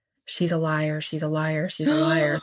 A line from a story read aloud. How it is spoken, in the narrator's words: Jane's own mother muttering